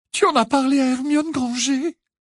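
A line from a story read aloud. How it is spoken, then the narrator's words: Indignant, shrill, tearful. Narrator (French): s'indigna Cho d'une voix aiguë, le visage brillant de larmes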